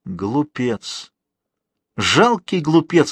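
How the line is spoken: Exclaimed. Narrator (Russian): воскликнул Жозеф

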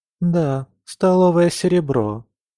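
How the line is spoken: Sad wry smirk. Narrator (Russian): печально усмехнулась Камилла

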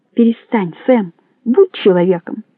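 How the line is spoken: Calm. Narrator (Russian): сказал спокойно

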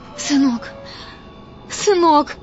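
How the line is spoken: Sobbing. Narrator (Russian): рыдала Итка

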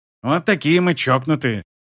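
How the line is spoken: Snorted. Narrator (Russian): фыркнул Шис

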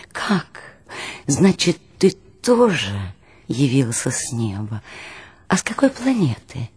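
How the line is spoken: Exclamation. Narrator (Russian): воскликнул

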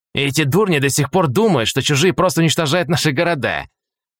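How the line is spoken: Scornful snort. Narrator (Russian): хмыкнул Полос

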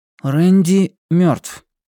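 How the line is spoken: Flat even voice. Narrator (Russian): ровным голосом ответил Блейз

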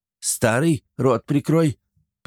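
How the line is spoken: Sharp rebuke. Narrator (Russian): прикрикнула на мужа Франси

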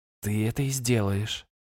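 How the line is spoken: Soft. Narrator (Russian): мягко произнесла Йортрен

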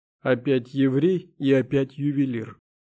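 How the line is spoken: Gloomy voice. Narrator (Russian): мрачным голосом произнес Шакеев

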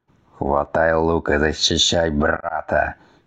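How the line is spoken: Growled command. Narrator (Russian): только рыкнул отец

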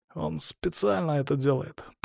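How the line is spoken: Whisper. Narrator (Russian): прошептал он

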